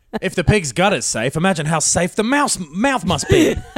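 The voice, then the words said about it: Posh British accent. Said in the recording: “A perfect posh British accent.”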